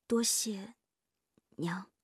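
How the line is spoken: Soft, timid. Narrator (Chinese): 夜莺低着头轻声说

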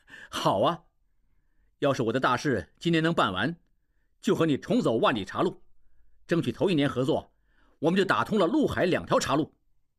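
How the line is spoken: Laughing. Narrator (Chinese): 应季笑起来

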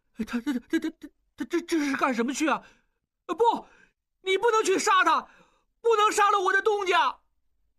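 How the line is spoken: Tense, panting question. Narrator (Chinese): 小栓不哭了，重新紧张起来，一边喘气，一边问巧姑

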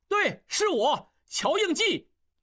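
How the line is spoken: Loud shout. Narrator (Chinese): 应济也跟着大叫

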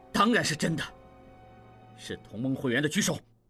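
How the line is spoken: Loud. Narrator (Chinese): 蒋作斌大声说

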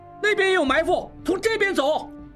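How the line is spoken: Calling out. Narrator (Chinese): 应文叫道

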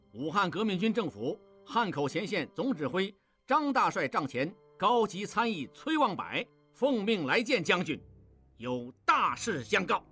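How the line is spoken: Loud voice. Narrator (Chinese): 望柏大声说

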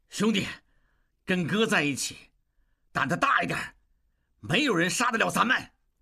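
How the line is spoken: Loud. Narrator (Chinese): 望柏费尽全身气力，大声说

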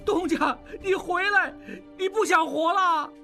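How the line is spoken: Angry shout. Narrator (Chinese): 小栓气恼地大喊

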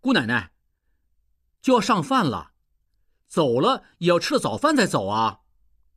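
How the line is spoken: Repeated calling. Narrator (Chinese): 应季直叫

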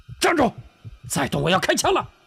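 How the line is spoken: Shouting. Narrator (Chinese): 车夫喊道

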